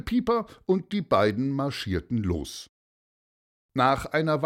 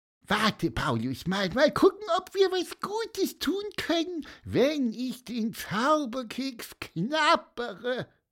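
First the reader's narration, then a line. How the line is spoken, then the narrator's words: Squeaky voice. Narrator (German): piepste Pieper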